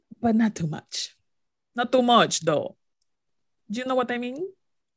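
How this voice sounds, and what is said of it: Slight Dominican accent slipping out. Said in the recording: “My little my little Dominican accent came out.”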